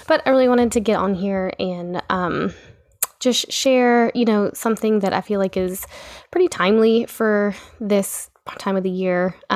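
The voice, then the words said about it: Voice sounds a little off. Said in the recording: “my voice is a little funny because we're all just getting over being sick”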